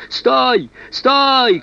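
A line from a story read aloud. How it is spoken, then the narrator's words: Shout. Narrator (Russian): крикнул Никола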